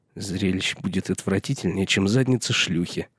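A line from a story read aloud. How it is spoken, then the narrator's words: Muttering. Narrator (Russian): пробормотал Пип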